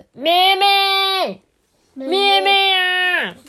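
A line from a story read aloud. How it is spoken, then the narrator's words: Loud, cold, exhausted shout. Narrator (Chinese): 野狼啊，全身湿透了，冷得受不了哎，但是他还是勉强撑起了身体，费尽所有的力气，大声喊着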